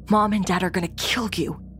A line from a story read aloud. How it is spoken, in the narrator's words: My brother whisper yelling, said